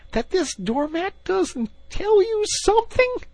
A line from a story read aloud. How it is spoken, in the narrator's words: cried the excited Rat